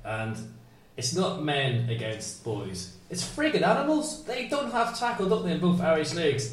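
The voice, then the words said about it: Northern Irish Belfast accent. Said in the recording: “as you can tell by my accent and the fact that you can actually understand that ... I grew up in Belfast”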